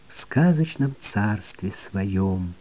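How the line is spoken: Soft singing. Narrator (Russian): Она тихонько пропела

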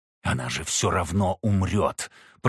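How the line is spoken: Hissed. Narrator (Russian): прошипел он

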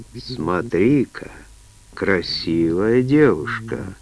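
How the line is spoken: Chuckling. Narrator (Russian): хохотнул он

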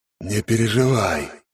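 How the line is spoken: Snake-like deathly hiss. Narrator (Russian): по-змеиному прошипел голос смерти

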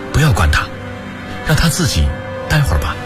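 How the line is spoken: Soft, quiet. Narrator (Chinese): 七里轻声说道

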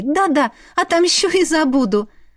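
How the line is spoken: Laughing. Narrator (Russian): рассмеялась Вера

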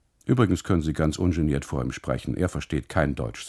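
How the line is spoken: Plain. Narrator (German): sagt

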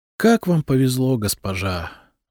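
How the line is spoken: Sighing. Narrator (Russian): вздохнула одна из них

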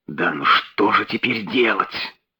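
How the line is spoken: Whispered. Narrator (Russian): прошептал сэр Генри

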